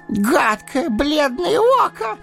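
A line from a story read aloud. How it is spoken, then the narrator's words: Shriek. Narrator (Russian): взвизгнул он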